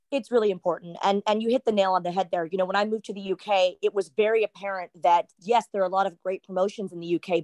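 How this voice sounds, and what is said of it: American Texan accent. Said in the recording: “pronouncing it as an American ... This is the only accent I got ... that's the Texan to me right there”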